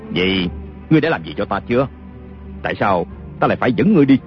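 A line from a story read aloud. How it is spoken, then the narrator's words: Scornful sneer. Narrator (Vietnamese): Kiều Phong cười khẩy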